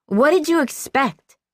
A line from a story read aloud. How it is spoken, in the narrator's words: she insisted on yelling